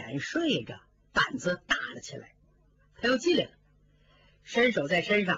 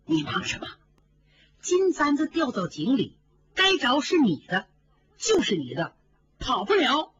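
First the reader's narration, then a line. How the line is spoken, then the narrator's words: Laughing. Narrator (Chinese): 金钏笑着说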